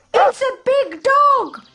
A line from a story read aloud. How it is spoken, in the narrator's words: the birds shout